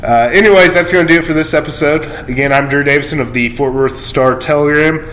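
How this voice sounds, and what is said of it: Slightly shaky, sick-sounding voice. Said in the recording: “my voice is a little shaky. I uh, kind of fighting a cold”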